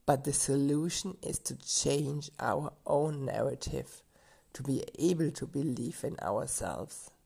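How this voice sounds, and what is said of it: Strained, tired voice. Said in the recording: “give my voice a little break, and hopefully it's better next week”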